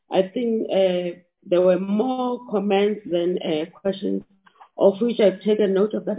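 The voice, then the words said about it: Sick, strained-sounding voice. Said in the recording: “sorry about my voice ... I just have flu”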